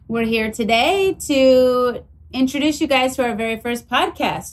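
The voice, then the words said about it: Yelling, loud energetic delivery. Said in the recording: “Why are you yelling? ... I'm right here. ... I'll tone it down a little bit”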